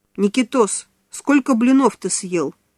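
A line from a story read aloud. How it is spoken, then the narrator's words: Stern question. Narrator (Russian): строго спросила Нана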